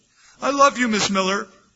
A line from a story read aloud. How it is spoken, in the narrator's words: he exclaimed, loud enough for the whole class to hear